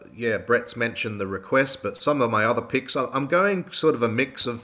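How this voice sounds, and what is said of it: Slightly croaky voice. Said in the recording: “My voice is a little croaky. I'm coming out of COVID, and it just seems to be lingering a little bit”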